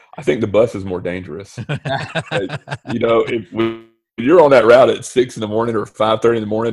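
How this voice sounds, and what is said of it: Deep radio voice. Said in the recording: “you've got a good radio voice too, deep”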